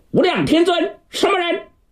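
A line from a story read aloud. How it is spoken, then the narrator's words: Loud shout from indoors. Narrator (Chinese): 在屋里头高声断喝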